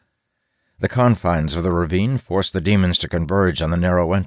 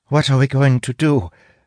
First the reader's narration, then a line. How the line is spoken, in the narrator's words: Sira asks, her voice quavering